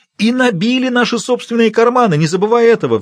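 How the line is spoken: Shrieking. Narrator (Russian): взвизгнул Когинс

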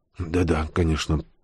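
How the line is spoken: Confused mumble. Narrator (Russian): пробормотал ни черта не понимающий усатый, очкастый, волосатый

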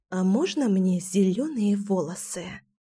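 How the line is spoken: Conspiratorial whisper. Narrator (Russian): Заговорщическим шепотом поинтересовалась Кира

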